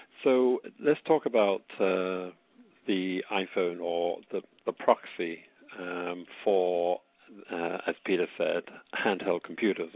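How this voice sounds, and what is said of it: British accent. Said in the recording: “as you can probably tell from my accent, is a day of atonement for me”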